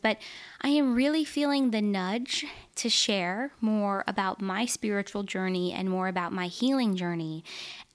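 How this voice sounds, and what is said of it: Nervous, slightly out of breath. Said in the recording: “I'm a little nervous. I don't know if you can tell. I'm like kind of out of breath”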